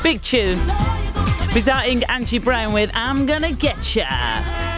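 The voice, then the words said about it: Put-on radio DJ voice. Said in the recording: “That's my DJ voice.”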